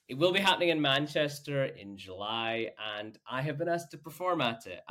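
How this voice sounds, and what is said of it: Northern English accent. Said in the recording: “as you can tell from my accent, I'm not local to Manchester or the surrounding area, but I'm from the north of the UK”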